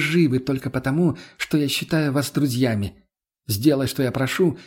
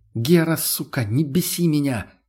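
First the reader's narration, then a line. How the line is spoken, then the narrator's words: Angry hiss. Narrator (Russian): прошипел в ответ он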